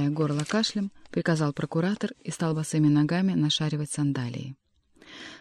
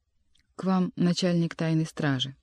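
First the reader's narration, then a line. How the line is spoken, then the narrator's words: Calm announcement. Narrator (Russian): спокойно сообщил Марк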